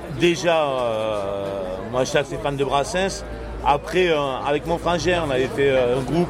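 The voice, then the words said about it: Slight southern French accent. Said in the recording (French): “on entend un petit accent du Sud”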